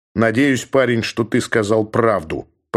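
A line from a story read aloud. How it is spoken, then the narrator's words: Growling. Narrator (Russian): прорычал он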